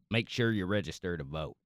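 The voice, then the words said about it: Put-on Southern US accent. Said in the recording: “I can do a southern accent ... that was pretty good”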